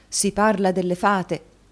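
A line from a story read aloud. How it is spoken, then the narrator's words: Exclaiming. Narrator (Italian): esclamò il signor Kenwigs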